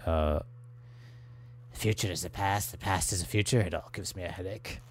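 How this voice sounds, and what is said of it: Impression of Captain Janeway's voice. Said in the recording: “I can do a Janeway impression for you because she has a really great line on this.”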